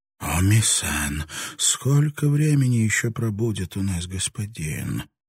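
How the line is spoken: Frightened distant whisper. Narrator (Russian): донесся из дома испуганный шепот матери Оми

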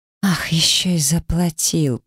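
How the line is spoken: Hiss. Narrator (Russian): прошипела я

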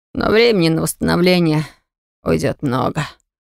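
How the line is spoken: Hoarse wheeze. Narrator (Russian): прохрипел брат

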